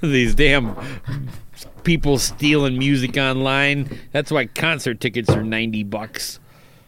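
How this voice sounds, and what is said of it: Imitates another person's voice. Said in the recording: “Is that your Ulrich impersonation?”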